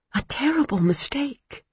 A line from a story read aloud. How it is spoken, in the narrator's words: she whispered